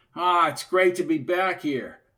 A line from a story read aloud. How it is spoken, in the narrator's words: shouted Harry